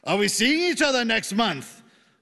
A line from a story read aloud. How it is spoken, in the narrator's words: a man asked loudly